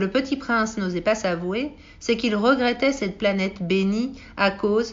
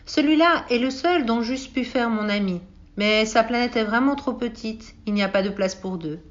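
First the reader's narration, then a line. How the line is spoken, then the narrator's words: Regretful sigh, to himself. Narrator (French): Il eut un soupir de regret et se dit encore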